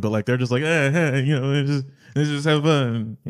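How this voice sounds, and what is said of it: Imitates other people's voices. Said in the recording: “You nailed that impersonation... That's exactly what we sound like... That's what you guys sound like”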